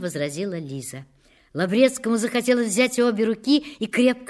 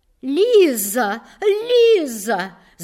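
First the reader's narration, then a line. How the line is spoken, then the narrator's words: Shouting. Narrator (Russian): закричала Марья Дмитриевна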